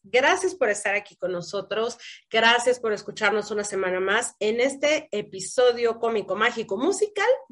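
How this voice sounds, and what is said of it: Hoarse, congested voice. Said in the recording (Spanish): “estoy ¡Uh! afónica ... estoy afónica y quedando media mormada”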